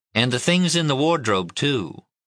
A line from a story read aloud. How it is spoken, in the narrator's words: she said evenly